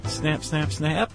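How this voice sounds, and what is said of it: Vocal imitation of camera shutter. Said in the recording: “That is my camera impression.”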